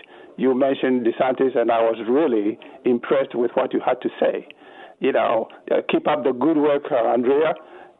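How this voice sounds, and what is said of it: Speaks with a noticeable accent. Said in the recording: “I just adore an accent, and yours is absolutely yummy to me”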